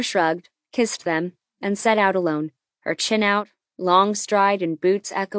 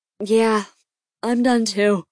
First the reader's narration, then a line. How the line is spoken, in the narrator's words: Lucky said, patting back a fake yawn